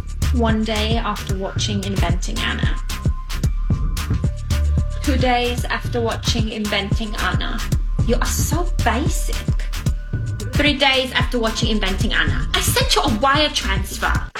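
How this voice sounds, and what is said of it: Imitation of Anna Delvey's accent. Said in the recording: “impersonating her unique accent? ... Impersonating her accent.”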